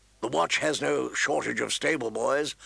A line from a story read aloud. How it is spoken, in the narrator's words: Lord Mormont grumbled